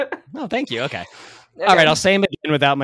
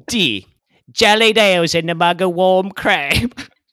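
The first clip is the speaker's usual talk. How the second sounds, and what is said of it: Put-on Cockney accent. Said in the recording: “Do a Cockney accent ... my shitty accents”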